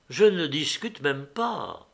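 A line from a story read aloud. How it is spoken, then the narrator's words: Soft. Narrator (French): dit Constantin doucement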